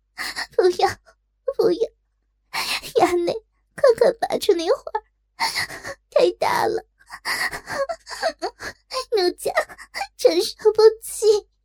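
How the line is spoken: Coy tearful whimper. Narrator (Chinese): 娇哭道

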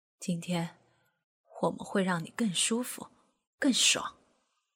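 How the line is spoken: Soft tender whisper. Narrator (Chinese): 刘峰高的嘴靠在陈家斌的耳边，轻轻的、温柔的说

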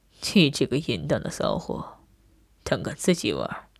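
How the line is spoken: Cold. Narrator (Chinese): 他冷冷道

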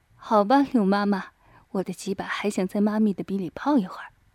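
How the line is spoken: Laughing. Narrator (Chinese): 于飞笑道

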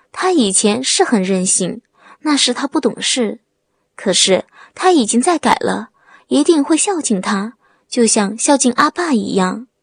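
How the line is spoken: Choked, sobbing voice. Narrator (Chinese): 王梅 哽咽说

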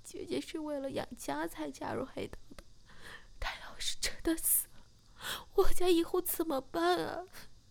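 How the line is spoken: Crying. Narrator (Chinese): 小柔马上哭着说

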